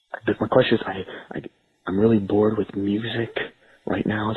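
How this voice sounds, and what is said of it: Whispering. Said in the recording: “I'm sorry I have to whisper”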